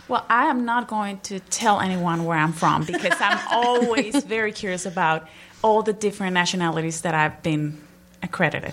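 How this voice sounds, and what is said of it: Slight foreign accent. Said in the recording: “is not from around here originally, so everybody has to listen very carefully when she speaks because she does have a little bit of an accent.”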